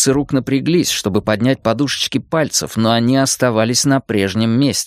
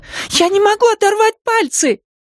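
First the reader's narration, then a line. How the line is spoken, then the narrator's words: Cried out. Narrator (Russian): Еще кто-то вскрикнул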